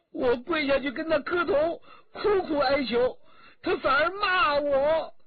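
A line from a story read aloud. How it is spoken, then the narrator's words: Crying. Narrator (Chinese): 新燕哭着说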